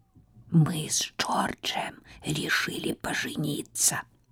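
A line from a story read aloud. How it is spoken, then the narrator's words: Whisper. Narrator (Russian): шепотом сказала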